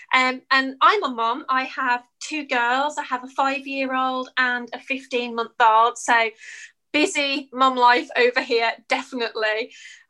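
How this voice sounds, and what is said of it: British English accent. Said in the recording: “As you can probably tell by my accent, I'm from the UK.”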